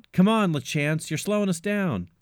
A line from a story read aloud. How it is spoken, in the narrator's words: someone yell out